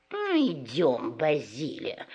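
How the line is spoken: Offended fox. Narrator (Russian): Обиженно свернув нос, сказала лиса

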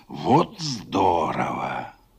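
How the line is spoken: Whisper. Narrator (Russian): Этот шепот

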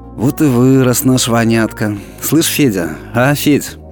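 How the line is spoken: Warm, gentle. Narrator (Russian): тепло улыбнулась и ласково сказала ему вслед

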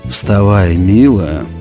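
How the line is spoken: Hoarse but tender, dazed. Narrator (Russian): хрипло, но нежно сказал Григорий, сам не понимая, что говорит

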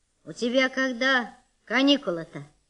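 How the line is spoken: Stern old woman. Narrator (Russian): спросила бабка строго

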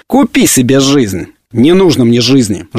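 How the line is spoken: Hard, cold. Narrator (Russian): жестко и холодно ответил Полишук

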